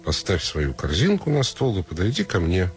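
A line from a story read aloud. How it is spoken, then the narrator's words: Plain. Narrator (Russian): сказал волк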